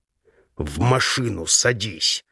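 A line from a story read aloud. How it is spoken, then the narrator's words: Forced through teeth. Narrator (Russian): выдавливаю сквозь зубы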